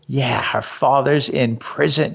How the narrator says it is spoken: she hissed spitefully

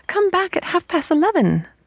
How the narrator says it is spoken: they cried

